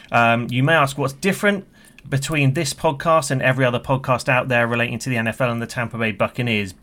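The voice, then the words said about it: British accent. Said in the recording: “you can tell by my accent. From the UK”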